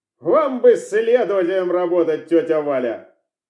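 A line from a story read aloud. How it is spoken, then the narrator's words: Laughing. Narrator (Russian): рассмеялся Станислав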